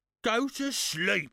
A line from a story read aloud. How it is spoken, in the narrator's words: growled Mr